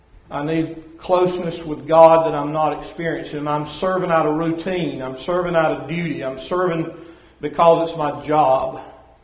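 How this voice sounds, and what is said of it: Southern American accent. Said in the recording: “she loves my Southern accent”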